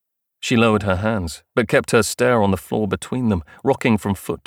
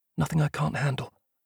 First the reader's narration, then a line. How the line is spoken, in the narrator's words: murmured